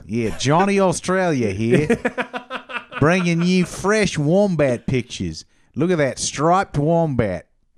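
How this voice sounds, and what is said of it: Put-on Australian accent. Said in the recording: “your Australian accent ... his Australian accent is breathtaking ... You sound like Johnny Australia.”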